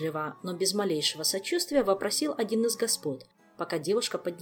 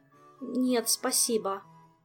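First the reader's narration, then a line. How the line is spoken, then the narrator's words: Mumbled. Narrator (Russian): промямлила Ольга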